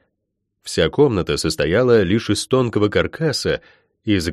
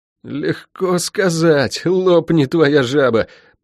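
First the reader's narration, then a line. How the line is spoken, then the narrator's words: Groaning. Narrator (Russian): простонал Лук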